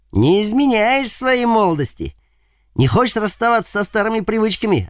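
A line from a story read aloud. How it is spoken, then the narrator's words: Approving loud laughter. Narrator (Russian): одобрительно расхохотался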